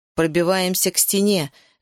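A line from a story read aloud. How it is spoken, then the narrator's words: Ringing commanding voice. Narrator (Russian): звенящим голосом приказал Ишка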